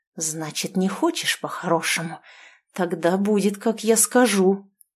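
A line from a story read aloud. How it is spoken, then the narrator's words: Menacing hiss. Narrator (Russian): прошипел он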